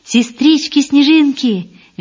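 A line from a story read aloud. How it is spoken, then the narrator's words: Cheerful. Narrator (Russian): весело сказал он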